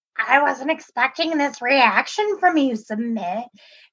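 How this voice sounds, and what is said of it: Froggy, Muppet-like imitated voice. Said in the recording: “I love your Jenny impersonation... a little bit Kermit the Frog... there's that froggy... voice... she kind of sounds like a Muppet”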